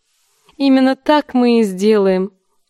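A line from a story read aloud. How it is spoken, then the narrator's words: Laughing. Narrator (Russian): засмеялась она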